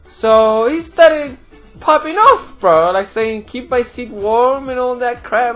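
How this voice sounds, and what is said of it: Noticeable foreign accent. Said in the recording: “Sorry, I got an accent, dude.”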